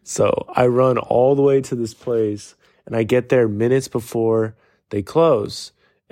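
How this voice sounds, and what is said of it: Hoarse, worn-out voice. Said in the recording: “my voice is like busted, and I was not planning on staying up this late”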